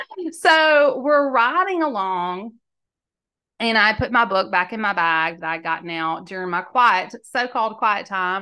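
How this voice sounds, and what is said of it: Mississippi accent. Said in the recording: “people always want to know about this accent. Where are you from? I said, Mississippi.”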